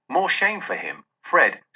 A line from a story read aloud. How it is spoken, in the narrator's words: said Scrooge's niece, indignantly